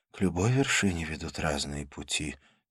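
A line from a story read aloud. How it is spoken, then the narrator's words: Quiet. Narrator (Russian): тихо сказала она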